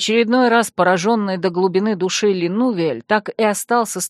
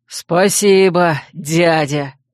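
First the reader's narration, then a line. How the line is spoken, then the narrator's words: Snorting. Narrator (Russian): хмыкнул Шранг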